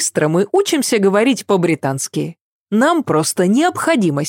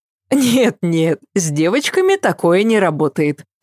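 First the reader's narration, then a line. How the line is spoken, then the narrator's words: Laughing. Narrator (Russian): засмеялась Ася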